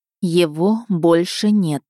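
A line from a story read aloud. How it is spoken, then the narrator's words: Slow, syllable by syllable. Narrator (Russian): медленно, едва не по слогам произнесла я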